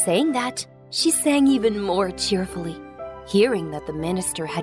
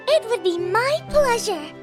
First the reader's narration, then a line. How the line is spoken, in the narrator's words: The nightingale said cheerfully